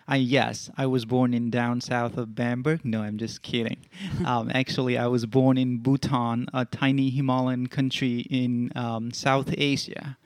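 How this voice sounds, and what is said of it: Non-native accent. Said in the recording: “probably by now you might hear some accent”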